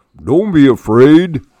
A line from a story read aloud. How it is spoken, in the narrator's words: Bear said in a big, booming voice